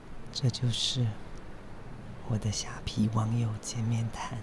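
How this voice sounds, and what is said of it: Quiet, hushed speaking. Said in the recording (Chinese): “这种话题好像不太适合在博物馆谈， 所以我很小声，不要让别人听到。”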